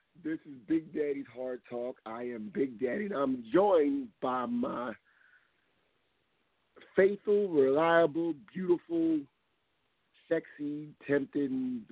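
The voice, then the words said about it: Hoarse voice. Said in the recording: “Excuse my hoarse voice, but I'm still hoarse”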